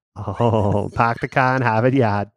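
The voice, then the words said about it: Put-on Boston accent. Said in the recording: “I got my Boston accent. ... Yeah, me too.”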